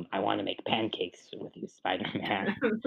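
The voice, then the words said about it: Green Goblin character voice impression. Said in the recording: “it's a weirdly good Green Goblin impression.”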